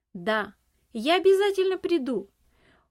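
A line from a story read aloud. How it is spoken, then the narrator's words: Shout while running. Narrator (Russian): уже на бегу крикнул он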